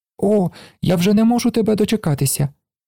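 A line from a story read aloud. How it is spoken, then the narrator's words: Child's exclamation. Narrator (Ukrainian): вигукнув малий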